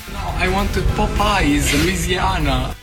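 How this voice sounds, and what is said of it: Heavy Italian accent. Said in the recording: “his heavy Italian accent”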